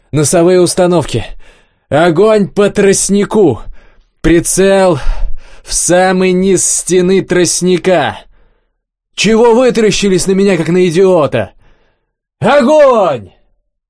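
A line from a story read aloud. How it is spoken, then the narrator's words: Loud yell. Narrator (Russian): заорал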